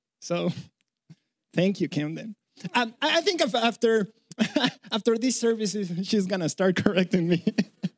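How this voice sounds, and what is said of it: Mexican Spanish accent. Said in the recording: “Funny accent? Yes, that's why, because I'm from Mexico ... she thinks I sound funny”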